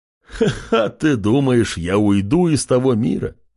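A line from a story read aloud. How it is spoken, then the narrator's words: Laughing. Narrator (Russian): Рассмеялся Зерри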